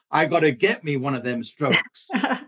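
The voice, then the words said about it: Put-on American accent. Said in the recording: “that was my best attempt at an American accent, which was obviously pretty ... it was a very good attempt at that”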